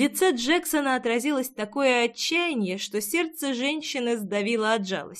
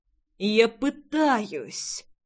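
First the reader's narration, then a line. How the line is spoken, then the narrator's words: Strained exhale. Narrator (Russian): С трудом выдохнул Джекс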